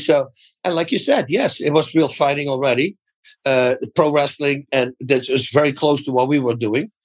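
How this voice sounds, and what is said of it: Dutch accent. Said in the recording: “I'm a Dutch guy. So that right away takes care of the accent that I have.”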